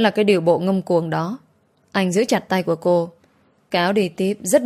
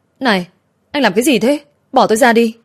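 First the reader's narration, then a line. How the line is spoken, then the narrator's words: Shouted while running. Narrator (Vietnamese): cô vừa chạy theo anh vừa hét lên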